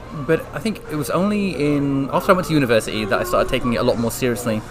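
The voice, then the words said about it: Speaks with a London accent. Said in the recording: “has an accent. ... originally I'm from London”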